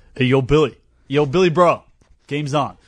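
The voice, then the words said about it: Put-on American accent. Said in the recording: “Can you talk like an American? Do you do just a regular American accent? ... I'll try an American accent for you. ... You've nailed it.”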